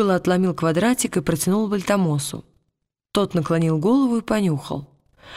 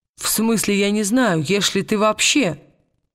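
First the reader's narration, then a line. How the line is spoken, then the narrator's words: Plain. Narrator (Russian): сказал Уилл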